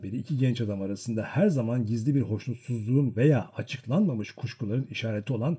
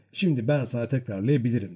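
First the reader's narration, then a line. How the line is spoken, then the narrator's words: Plain. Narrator (Turkish): dedi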